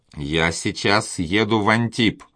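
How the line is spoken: Plain. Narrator (Russian): сказал комендант

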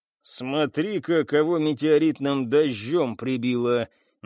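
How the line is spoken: Cyborg speaking through teeth. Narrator (Russian): процедил киборг

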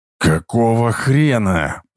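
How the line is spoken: Growled. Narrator (Russian): прорычал Кейн

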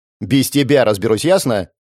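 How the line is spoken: Snapping retort, young woman. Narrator (Russian): огрызнулась девушка

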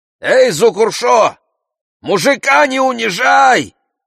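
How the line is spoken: Old men shouting. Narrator (Russian): кричали старики

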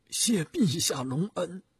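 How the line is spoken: Choked with emotion. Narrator (Chinese): 徐达听了感慨万分 声音哽咽地说

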